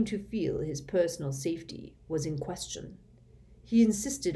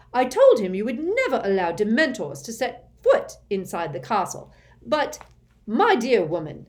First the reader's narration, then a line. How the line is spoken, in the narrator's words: roared Fudge, who likewise looked angrier than Harry had ever seen him